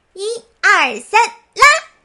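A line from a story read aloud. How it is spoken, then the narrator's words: Shouted. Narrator (Chinese): 蝙蝠喊道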